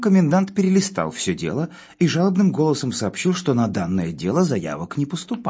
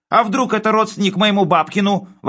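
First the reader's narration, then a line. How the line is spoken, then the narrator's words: Wailing yell. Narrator (Russian): вопил он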